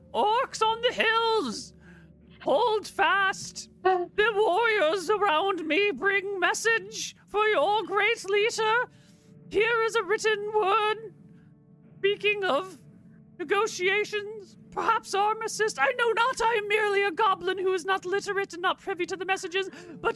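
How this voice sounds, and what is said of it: Clear goblin character voice. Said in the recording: “in a clear goblin voice”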